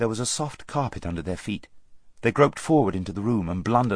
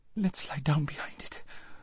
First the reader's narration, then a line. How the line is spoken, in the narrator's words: whimpered Lazareline